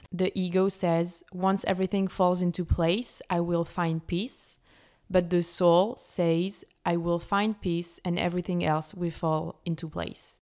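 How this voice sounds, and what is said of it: French-accented English. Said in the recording (French): “mon accent, je vais essayer de faire au mieux, mais no judgment please”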